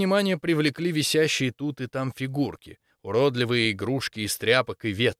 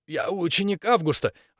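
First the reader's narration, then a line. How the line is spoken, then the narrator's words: Desperate wheeze. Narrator (Russian): отчаянно просипел Максимилиан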